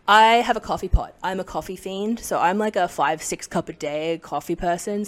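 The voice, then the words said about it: Unusual partly Canadian accent. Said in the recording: “Spent half my life in Canada. That's kind of where my accent's weird.”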